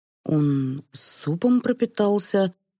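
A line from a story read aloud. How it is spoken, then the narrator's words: Stammering. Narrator (Russian): запинаясь, выговорила она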